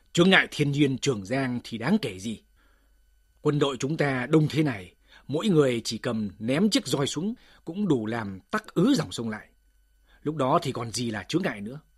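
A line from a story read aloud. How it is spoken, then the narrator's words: Angry loud. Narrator (Vietnamese): Phù Kiên nổi giận lớn tiếng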